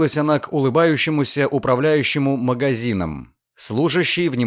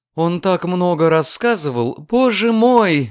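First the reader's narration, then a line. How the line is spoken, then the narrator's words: Exclaiming. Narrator (Russian): воскликнула госпожа Врейн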